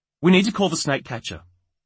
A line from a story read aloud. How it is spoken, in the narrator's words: she said sharply, masking the jitters she still felt